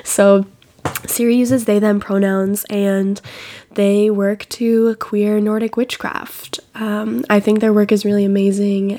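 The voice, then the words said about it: Sick, unwell-sounding voice. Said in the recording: “maybe you can tell by my voice that I am sick”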